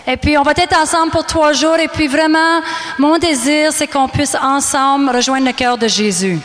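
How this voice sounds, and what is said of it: Canadian French accent. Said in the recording (French): “je parle avec un certain accent. Je suis canadienne.”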